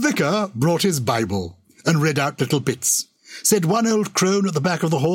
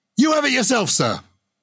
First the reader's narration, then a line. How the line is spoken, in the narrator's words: the prisoner shouted